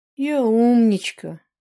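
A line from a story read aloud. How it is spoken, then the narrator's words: Sighing. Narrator (Russian): вздохнул Рыжий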